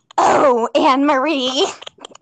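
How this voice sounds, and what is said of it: Velvet character voice. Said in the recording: “do my Velvet voice ... do your Velvet voice”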